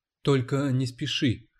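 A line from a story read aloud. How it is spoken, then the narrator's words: Whisper in ear. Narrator (Russian): шепнула она ему в ухо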